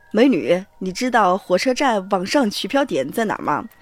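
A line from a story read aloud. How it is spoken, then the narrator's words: Plain. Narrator (Chinese): 说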